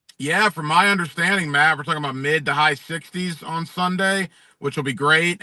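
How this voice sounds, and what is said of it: Southern accent, smooth radio voice. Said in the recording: “he's got that really cool Southern accent, but cool radio voice too”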